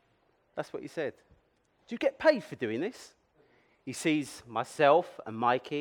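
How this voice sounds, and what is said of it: Usual voice. Nothing is said of it.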